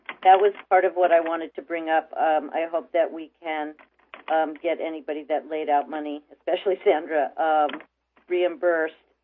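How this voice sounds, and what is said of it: Sick, slightly fading voice. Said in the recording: “I'm kind of getting sick. I'm losing my voice a little bit.”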